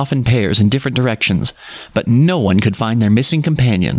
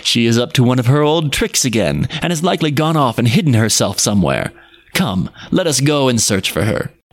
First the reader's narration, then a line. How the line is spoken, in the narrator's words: cried they, laughing